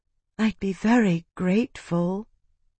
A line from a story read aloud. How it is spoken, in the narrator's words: whispered in his ear